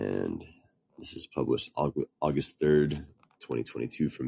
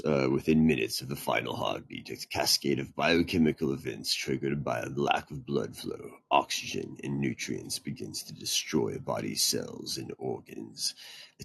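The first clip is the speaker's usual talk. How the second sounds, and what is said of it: Reading in an evil voice. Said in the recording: “I'll read this in an evil voice.”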